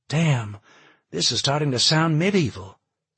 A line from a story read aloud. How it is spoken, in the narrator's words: Kate sighed